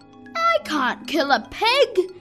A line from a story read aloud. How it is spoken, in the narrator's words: shouted the boy